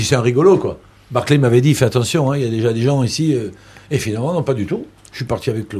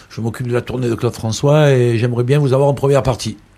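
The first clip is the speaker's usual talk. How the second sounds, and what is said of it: Imitated Marseille accent. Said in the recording (French): “avec son accent marseillais”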